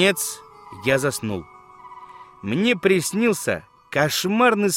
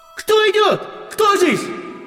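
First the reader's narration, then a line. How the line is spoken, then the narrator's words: Shouting into ear. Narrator (Russian): вождь краснокожих кричал Биллу или мне в ухо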